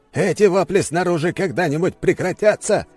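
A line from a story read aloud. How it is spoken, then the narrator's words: Barked. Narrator (Russian): рявкнул он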